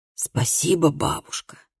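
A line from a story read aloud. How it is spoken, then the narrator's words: Whispered. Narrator (Russian): прошептал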